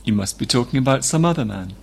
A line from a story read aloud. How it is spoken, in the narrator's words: Sergei replied calmly